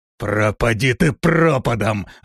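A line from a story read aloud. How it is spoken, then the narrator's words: Frustrated growl. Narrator (Russian): зарычал Рок, понимая, что не может справиться с противником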